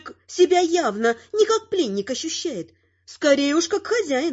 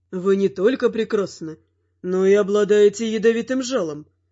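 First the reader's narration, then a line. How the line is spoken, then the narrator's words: Amused snort. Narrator (Russian): хмыкнул он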